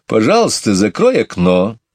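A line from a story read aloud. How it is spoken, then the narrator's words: Stern speech. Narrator (Russian): строго сказала Мэри Поппинс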